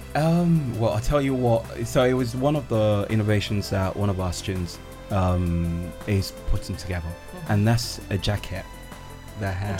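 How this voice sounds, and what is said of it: English accent. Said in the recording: “so I'm from England. ... clearly your voice, your accent.”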